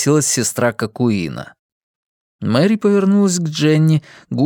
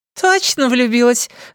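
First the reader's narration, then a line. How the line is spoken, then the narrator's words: Laughing. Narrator (Russian): рассмеялась Тамра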